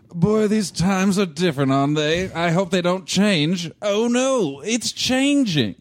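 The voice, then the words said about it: Old-fashioned period-drama character voice. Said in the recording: “just do a quick period piece impression”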